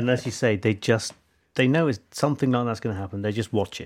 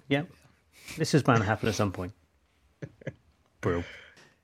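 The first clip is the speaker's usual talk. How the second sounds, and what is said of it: Flat deadpan delivery. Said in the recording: “They deadpan.”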